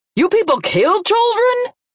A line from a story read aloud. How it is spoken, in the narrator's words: Junior shouted, completely offended and pissed off